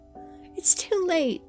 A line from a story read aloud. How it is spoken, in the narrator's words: yelled